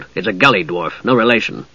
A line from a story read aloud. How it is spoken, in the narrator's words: added stiffly